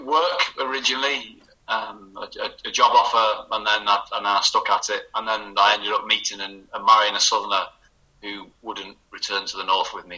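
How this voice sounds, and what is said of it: Mild northern English accent. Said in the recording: “Although my accent's probably not as strong as it used to be ... Oh, yeah, it is noticeable now.”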